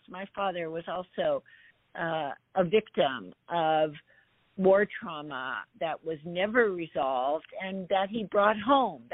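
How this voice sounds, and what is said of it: Outraged, emotionally charged speaking voice. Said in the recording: “You can hear it in my voice, my outrage at this.”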